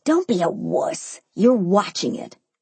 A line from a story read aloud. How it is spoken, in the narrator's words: he hissed